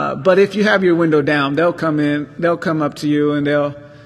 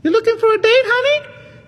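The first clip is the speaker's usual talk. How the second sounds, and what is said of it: Man doing a woman's voice. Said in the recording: “a little woman voice”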